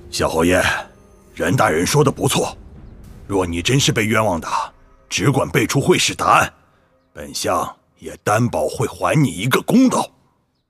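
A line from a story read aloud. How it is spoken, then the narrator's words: Low, deep voice. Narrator (Chinese): 左相素梅沉声道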